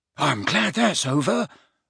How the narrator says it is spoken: muttered Neville

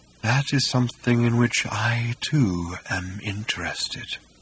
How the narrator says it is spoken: breathed Hakdar

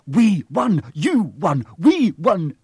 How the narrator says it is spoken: shouted Ron

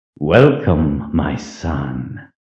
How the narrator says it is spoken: came the hiss of his voice

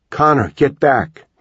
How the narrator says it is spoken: Caitlin shouted

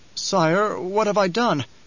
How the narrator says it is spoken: Nefood quavered

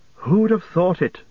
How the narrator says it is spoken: Frodo exclaimed

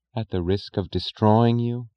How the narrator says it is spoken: she whispered

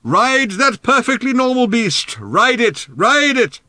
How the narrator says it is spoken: Ford shouted in Arthur's ear

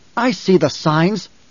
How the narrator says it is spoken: Jessica snapped

